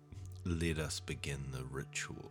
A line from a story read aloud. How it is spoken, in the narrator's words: said Popek